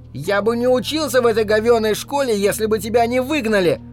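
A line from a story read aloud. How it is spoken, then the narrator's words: Shouted. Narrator (Russian): выкрикнул он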